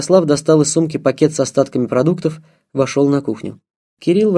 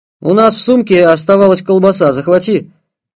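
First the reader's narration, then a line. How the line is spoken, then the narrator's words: Shout. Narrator (Russian): крикнул Слава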